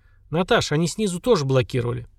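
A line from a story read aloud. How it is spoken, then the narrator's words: Calm. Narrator (Russian): спокойно сказал Семен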